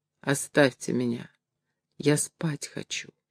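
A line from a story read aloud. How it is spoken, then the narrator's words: Weak voice. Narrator (Russian): Сара проговорила слабым голосом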